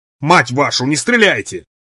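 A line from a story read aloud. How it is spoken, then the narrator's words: Shout. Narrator (Russian): Капитан кричал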